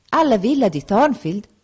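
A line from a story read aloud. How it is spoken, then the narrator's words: Exclaimed. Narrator (Italian): esclamò il pastore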